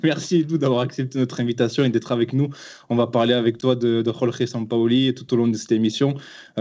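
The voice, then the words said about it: Southern French accent. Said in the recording (French): “des personnes du sud de la France ... tu nous as euh, complimenté sur notre accent”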